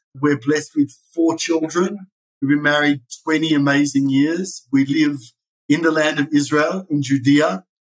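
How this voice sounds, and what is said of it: Australian accent, South African tinge. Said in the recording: “I was born in Sydney, Australia. That's where the funny accent comes in. I'm married to a South African, which makes the accent even more funny.”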